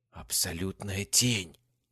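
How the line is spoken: Whisper. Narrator (Russian): прошептала Касс

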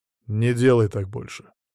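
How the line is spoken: Cold. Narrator (Russian): сказал холодно

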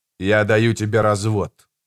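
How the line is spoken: Cold. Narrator (Russian): сказал холодно

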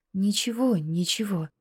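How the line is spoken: Quiet, soothing. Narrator (Russian): тихо и успокаивающе заговорила Надя

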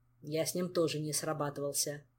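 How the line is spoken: Grumbled. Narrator (Russian): проворчал Кантор

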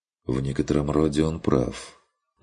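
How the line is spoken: Quiet remark. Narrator (Russian): негромко проронил Курт

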